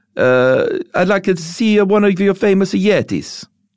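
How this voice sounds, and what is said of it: Bad put-on Greek accent. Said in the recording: “my bad accent ... that was my Greek accent”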